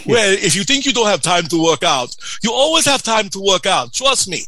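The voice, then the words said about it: Imitates another person's accent. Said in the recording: “I'm sorry about the accent, it's just the way he said it.”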